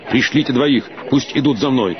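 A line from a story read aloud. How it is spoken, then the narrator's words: Quick. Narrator (Russian): Валантен быстро сказал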